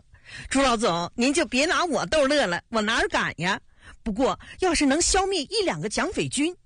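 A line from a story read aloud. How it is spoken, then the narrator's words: Chuckling. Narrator (Chinese): 陈开尧嘿嘿笑着说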